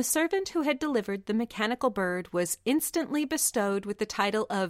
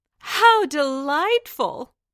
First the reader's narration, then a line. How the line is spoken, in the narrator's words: all the courtiers cried